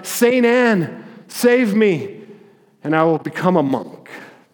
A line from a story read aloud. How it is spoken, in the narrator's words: cried out